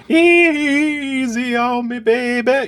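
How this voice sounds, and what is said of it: Sung imitation of a singer's voice. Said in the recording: “That's spot on. ... do an Adele impression.”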